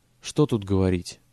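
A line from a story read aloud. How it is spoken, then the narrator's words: Plain. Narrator (Russian): ответил он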